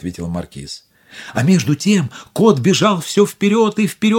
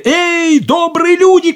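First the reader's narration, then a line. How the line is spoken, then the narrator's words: Shout. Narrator (Russian): крикнул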